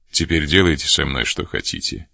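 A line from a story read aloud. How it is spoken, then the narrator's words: Cold. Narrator (Russian): холодно сказал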